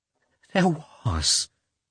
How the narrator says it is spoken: she said in a trembling voice

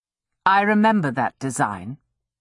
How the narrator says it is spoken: said her father dryly

